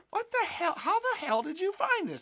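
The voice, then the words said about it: Nerdy imitated voice of another person. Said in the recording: “my Steve impression. That's kind of how he talks. He's just he's very nerdy, kind of like a little nerdy dude.”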